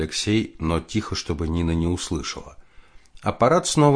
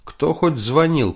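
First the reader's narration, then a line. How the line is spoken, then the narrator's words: Shouted. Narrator (Russian): крикнула жена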